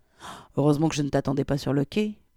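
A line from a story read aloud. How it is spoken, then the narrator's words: Friend muttering. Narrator (French): marmonna son ami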